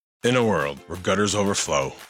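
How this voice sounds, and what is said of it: Dramatic movie trailer narrator voice. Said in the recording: “doing the movie trailer voice”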